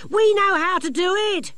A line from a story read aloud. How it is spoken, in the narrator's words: shouted one of the younger gnomes